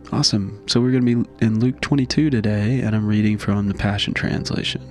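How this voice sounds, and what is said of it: Slightly congested voice. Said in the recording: “my voice is a little off today, I had a cold about 4 days ago, and it kind of left me with a little congestion”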